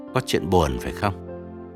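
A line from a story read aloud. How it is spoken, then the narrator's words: Lowered voice question. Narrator (Vietnamese): ông Vương mới hạ giọng hỏi ông Thành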